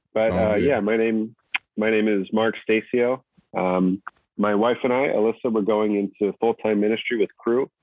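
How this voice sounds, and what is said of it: Hoarse voice. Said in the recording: “I'm a little hoarse today. I'm just getting over a cold.”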